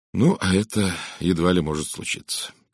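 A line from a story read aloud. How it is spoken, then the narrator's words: Sad mutter. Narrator (Russian): печально пробормотал я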